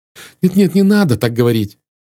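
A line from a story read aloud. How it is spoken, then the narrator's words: Pleading. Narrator (Russian): взмолилась красавица-графиня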